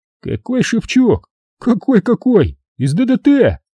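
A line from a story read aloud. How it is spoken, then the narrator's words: Exclaiming. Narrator (Russian): воскликнул солдат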